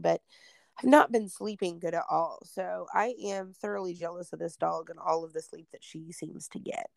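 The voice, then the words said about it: Hoarse, congested voice. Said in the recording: “some sinusy stuff. I'm sure everybody can hear it. My voice is a little hoarse and I'm a little stuffy”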